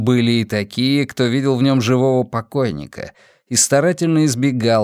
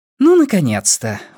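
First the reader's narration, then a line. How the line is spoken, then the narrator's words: Exclaimed. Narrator (Russian): воскликнула Бакстер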